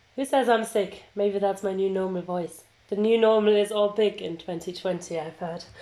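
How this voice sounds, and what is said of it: Slightly sick-sounding voice. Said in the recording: “I can hear that you are still being a little bit sick, but at least we have your sexy voice with us.”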